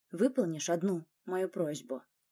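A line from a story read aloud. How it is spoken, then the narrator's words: Quiet request after pause. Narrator (Russian): Немного помолчав, Власов тихо попросил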